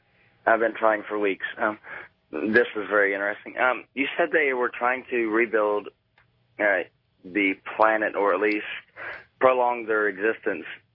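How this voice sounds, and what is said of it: Sick, rough voice. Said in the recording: “forgive my voice. I'm coming down with pneumonia.”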